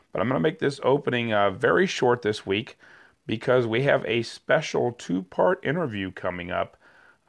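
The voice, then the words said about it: Sick, under-the-weather voice. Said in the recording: “As you can hear, I am a bit under the weather. My voice is a little bit better than it was last week”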